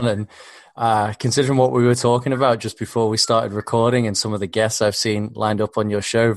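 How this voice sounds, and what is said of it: Australian accent with another twang. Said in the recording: “you might hear a twang that's not just Australian in there. I can certainly hear it.”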